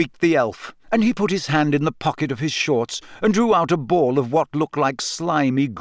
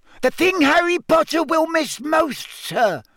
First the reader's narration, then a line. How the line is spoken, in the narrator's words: squeaked Dobby